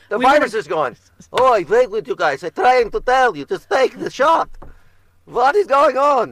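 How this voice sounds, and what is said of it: Eugene Levy impression of Sid Luckman. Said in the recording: “Why does COVID have that accent? ... I was doing Eugene Levy doing Sid Luckman”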